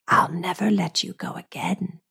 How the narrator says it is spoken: she whispers

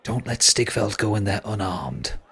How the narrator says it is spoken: she whispers in your ear

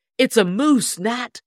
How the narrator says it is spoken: he cried

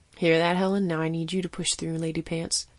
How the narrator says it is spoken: Blank muttered to the unconscious woman

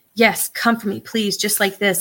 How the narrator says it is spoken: Ivy begged

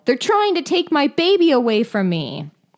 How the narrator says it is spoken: she yelled

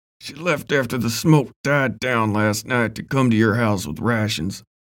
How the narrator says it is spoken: Ben said through gritted teeth

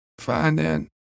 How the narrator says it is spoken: muttered

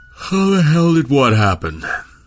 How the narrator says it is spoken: Milne asked, around a yawn born of too little sleep

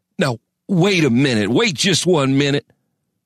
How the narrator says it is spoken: sputtered Crane

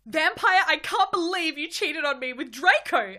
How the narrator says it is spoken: I shouted at him

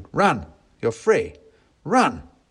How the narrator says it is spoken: I shouted

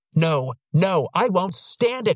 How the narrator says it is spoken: she bellowed

